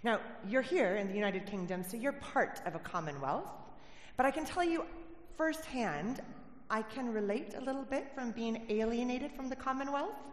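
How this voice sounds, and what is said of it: American accent. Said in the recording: “If you didn't pick up from my accent already, I was not born in Cornwall... I'm originally from America”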